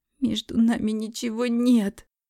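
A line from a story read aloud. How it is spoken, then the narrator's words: Whimpering. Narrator (Russian): захныкала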